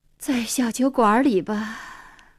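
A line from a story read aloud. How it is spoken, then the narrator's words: Sighing. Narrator (Chinese): 黄英叹口气说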